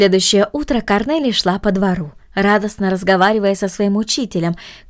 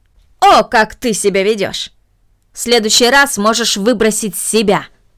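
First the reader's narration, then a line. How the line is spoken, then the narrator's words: Angry, moving away. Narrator (Russian): произнесла мисс Мина, сердито убегая из комнаты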